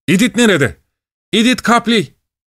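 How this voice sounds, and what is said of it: Shouting. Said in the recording (Turkish): “bağırmaya”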